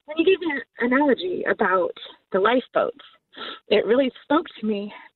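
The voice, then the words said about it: Emotional voice. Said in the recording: “little emotional,”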